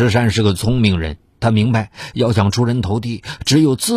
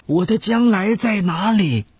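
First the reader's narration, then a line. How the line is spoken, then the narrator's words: Resentful shout. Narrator (Chinese): 农村里的超强度劳动和日晒雨淋，让他常常向天愤懑的大喊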